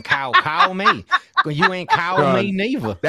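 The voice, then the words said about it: Put-on Southern accent. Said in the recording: “I can't do her accent ... That accent is so southern, bro. It hurts.”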